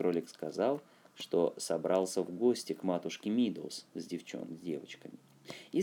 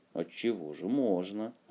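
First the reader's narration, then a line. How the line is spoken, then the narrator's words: Plain. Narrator (Russian): ответил братец-черепаха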